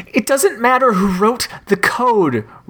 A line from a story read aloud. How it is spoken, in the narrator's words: Richard moaned